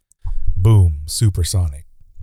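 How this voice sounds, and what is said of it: Deep voice. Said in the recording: “You've got the deep voice.”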